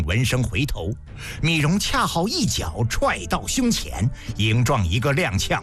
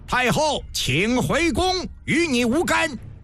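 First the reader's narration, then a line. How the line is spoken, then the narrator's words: Sudden loud shout. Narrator (Chinese): 魏然猛然大喊一声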